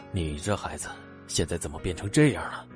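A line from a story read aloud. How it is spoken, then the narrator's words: Hesitant sigh. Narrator (Chinese): 沉默了几秒，才叹了一声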